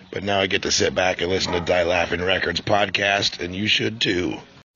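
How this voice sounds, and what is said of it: Worn-out, hoarse voice. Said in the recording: “My voice is all shot from St. Patrick's Day shows”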